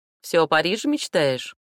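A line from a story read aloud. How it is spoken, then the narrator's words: Smirking, cheerful question. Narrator (Russian): Сестрица усмехнулась и весело спросила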